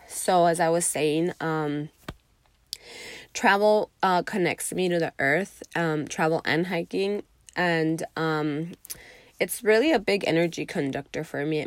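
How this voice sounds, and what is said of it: Congested, tired-sounding voice. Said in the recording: “I'm still a little bit congested, so talking is literally makes me tired... I'm gonna sound a little bit weird... My voice might sound a little gross”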